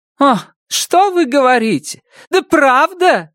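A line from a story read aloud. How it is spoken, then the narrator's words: Furious exclamation. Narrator (Russian): яростно воскликнула Сара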